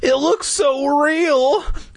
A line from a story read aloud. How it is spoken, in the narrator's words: Clay exclaimed